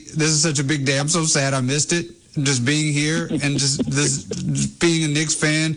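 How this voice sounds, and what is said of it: Choked-up, tearful voice. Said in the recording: “I'm getting choked up. ... while I'm crying. I'm a little emotional”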